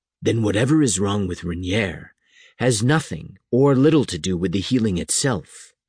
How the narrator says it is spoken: Satan said quietly

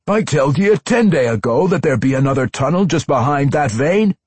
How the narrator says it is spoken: Bellows predictably complained to Junkie and Minto

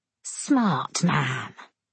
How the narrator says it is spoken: Semyon hisses, the words whistling between his teeth

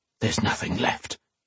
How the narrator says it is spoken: he whispered harshly

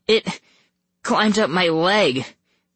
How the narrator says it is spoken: I stammered

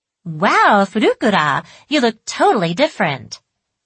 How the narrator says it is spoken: Miho had told me cheerfully

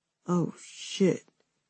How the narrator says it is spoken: he groaned

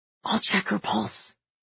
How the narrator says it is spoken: I whisper

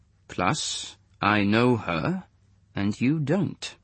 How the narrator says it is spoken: said Muller, evenly

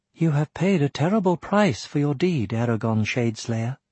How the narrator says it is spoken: Pity showed on Arya's face as she murmured

